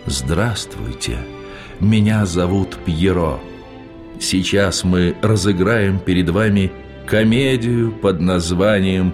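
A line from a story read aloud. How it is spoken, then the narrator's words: Sad. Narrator (Russian): Он сказал грустно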